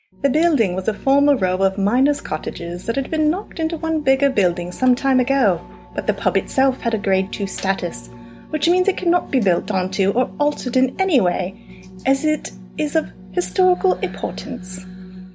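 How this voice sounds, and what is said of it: Light put-on English accent. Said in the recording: “my shitty English accent ... that horrible English accent ... it was actually like a light accent. ... It was very light.”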